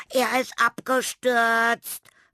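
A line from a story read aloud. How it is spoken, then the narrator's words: Frantic scream. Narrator (German): schrie Tilda außer sich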